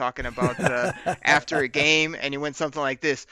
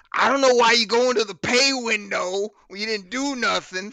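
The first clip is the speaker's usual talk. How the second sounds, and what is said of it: Imitates another person's voice. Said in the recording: “my best Benny Blades impression”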